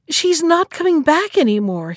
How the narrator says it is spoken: he cried

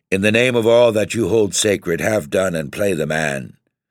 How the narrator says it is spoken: I cried in a loud, firm voice

